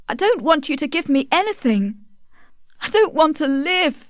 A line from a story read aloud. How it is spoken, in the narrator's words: cried Tess